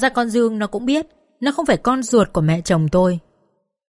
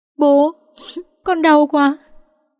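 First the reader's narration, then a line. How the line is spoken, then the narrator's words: Child sobbing in pain. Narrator (Vietnamese): Con Dương thì nép phía sau thút thít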